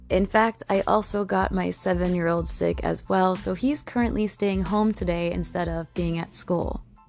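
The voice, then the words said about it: Sick, strange funky-sounding voice. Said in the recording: “my voice sounds a little bit strange and funky, sorry about that, I am sick”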